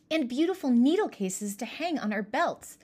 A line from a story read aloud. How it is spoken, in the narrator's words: exclaimed Merja